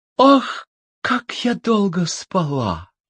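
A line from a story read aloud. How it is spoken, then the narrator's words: Sighing, just awakened. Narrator (Russian): Красавица раскрыла очи, вздохнула и говорит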